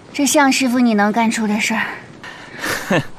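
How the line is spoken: Breathless. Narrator (Chinese): 郭焕金喘口气说

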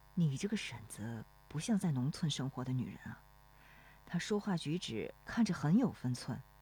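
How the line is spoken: Low question. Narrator (Chinese): 罗生转头低声问

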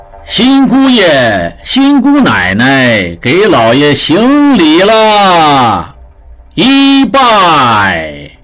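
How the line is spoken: Steward, loud. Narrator (Chinese): 侯管家在一旁大声道

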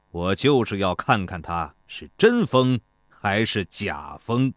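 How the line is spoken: Cold laugh. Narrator (Chinese): 庞涓冷冷地笑道

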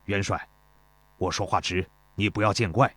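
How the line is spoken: Deferential middle-aged soldier. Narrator (Chinese): 中年士兵躬身道

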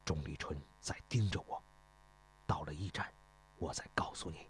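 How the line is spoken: Low voice. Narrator (Chinese): 秦华低声说道

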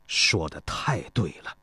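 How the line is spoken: Admiring. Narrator (Chinese): 庞涓赞叹地说

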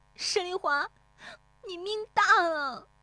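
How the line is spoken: Tearful cry. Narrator (Chinese): 乔红梅 悄然变色，带着哭腔喊

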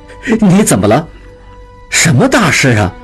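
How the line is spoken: Laughing. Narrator (Chinese): 应季醒来笑了

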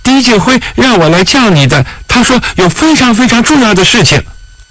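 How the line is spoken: Urgent cry. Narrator (Chinese): 用力地叫道

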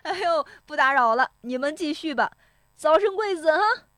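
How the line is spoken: Hearty laughter. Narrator (Chinese): 石有福在窗外哈哈笑着说

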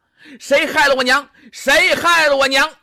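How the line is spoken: Shouting. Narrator (Chinese): 有人就喊上了

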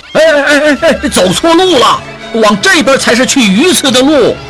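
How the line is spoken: Startled shouting. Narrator (Chinese): 谢掌柜一愣，直喊

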